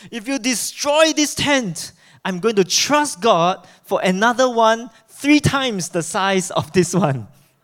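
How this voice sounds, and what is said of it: Strong put-on German accent. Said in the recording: “With his evangelist German accent. Wow, very strong accent.”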